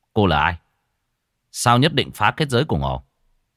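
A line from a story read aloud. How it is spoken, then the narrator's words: Stern, wary voice. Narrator (Vietnamese): Cô gái đứng dậy kiêng dè nhìn A Tú, gã nghiêm giọng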